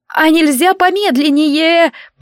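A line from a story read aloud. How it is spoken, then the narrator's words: Shouting, choking on wind. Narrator (Russian): прокричала я, захлебываясь потоком воздуха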